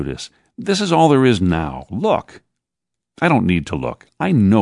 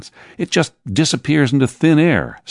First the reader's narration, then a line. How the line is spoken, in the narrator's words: snapped Peter